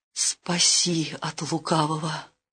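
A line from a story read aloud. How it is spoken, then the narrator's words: Terrified pleading. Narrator (Russian): ужас обуял княгиню, взмолилась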